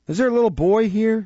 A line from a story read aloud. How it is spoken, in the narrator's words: inquired Nancy, with a preliminary sob